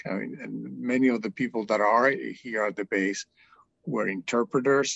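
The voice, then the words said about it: Non-native English accent. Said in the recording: “you can tell by my accent that English is not my native language”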